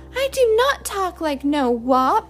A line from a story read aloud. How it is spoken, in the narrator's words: cried Francie